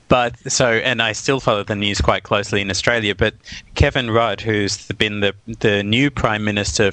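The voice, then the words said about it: Australian accent. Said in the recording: “For the people who didn't notice it from your accent, you're actually originally from Australia.”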